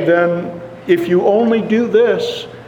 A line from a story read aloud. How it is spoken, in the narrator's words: he cried out